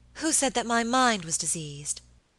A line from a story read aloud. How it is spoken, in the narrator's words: exclaimed Lady Audley